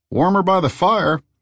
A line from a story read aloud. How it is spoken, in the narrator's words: the bartender called out